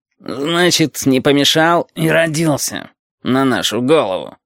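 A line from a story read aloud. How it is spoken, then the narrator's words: Grumbling. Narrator (Russian): ворчал темно-красный шарик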